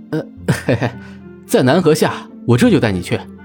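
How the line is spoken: Embarrassed laughing reply. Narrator (Chinese): 令狐无忧窘笑的答道

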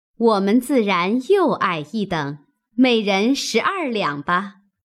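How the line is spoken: Laughing. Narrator (Chinese): 尤氏、李纨也笑道

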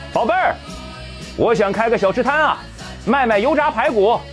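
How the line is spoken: Excited shout. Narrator (Chinese): 他兴奋地朝后面喊道

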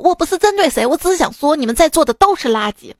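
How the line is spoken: Arrogant shout. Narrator (Chinese): 趾高气昂的大喊道

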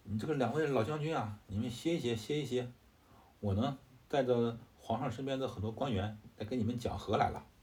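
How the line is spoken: Shouting. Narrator (Chinese): 杨彪……大叫

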